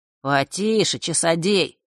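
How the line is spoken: Smirking snort. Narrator (Russian): хмыкнул Данила

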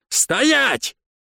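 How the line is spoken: Desperate shout. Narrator (Russian): Отчаянно закричал стражник

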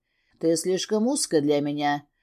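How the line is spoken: Rasped. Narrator (Russian): прохрипел Костас

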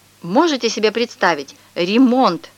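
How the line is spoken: Exclaiming. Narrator (Russian): воскликнула Мария Петровна

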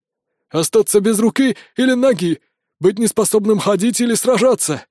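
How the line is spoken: Frightened blurting. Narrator (Russian): выпалил испуганно

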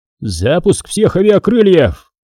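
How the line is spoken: Roar. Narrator (Russian): взревел Кулик

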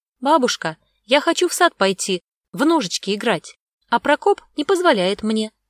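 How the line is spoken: Loud blurting. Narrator (Russian): выпалил он громко

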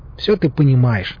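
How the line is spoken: Smirking grunt. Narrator (Russian): хмыкнул я

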